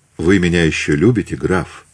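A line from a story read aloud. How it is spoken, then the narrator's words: Plain. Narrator (Russian): спросила Екатерина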